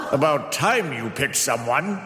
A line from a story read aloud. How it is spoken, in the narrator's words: Antinous jeered